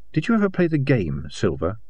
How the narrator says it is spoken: She asked softly

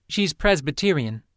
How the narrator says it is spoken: Lynn said

